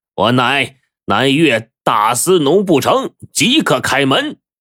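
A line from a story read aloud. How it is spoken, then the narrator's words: Loud. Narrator (Chinese): 张毅高声的就说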